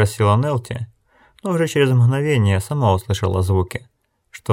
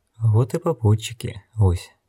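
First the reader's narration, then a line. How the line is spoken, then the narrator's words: Quiet. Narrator (Russian): негромко сказала Нелти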